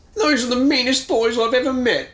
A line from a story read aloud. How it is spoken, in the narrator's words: Todd wails